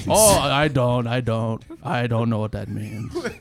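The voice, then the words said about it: Imitates Thor character voice. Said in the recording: “that your Thor impersonation”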